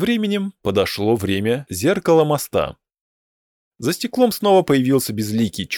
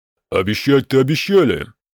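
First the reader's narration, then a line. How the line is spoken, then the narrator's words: Grumbling. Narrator (Russian): проворчала Остизелар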